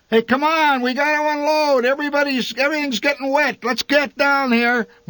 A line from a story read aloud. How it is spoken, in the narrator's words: my father shouted through the trees